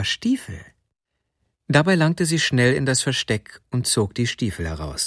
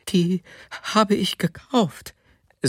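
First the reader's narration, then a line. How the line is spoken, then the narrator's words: Fearful woman. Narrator (German): sagte die Frau noch einmal ängstlich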